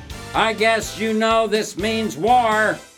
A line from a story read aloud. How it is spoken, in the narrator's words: I raised up and yelled